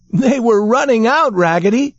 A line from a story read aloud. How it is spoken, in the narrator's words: shouted all the other dolls